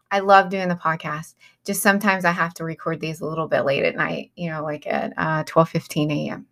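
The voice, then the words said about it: Rough, raspy late-night voice. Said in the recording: “I sound a little rough ... my raspy voice”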